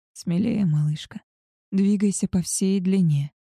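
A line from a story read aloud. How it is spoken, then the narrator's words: Hoarse rasp. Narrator (Russian): прохрипел Альфа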